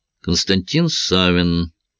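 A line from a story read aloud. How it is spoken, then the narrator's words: Bored voice. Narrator (Russian): скучным голосом сказал Савин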